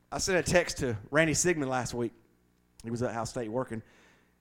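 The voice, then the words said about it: Southern American accent. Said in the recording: “My southern dialect”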